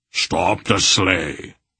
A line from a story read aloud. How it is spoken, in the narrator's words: Beric growled at the driver